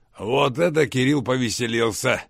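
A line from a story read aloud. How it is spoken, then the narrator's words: Short laugh. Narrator (Russian): хохотнул Рамов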